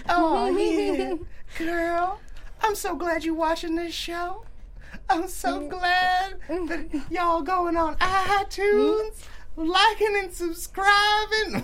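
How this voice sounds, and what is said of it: Voice pitched up very high. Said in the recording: “Do you hear my voice going real high? My voice is going real high. ... That's a love octave. ... You are so turking it up right now.”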